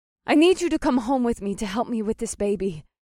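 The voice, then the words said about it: Thick accent, character voice. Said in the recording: “The desert goddess's accent grew thicker with each word”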